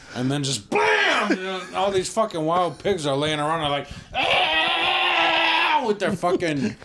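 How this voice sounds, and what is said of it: Imitates dying wild pigs squealing. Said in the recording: “That's a good impression of it.”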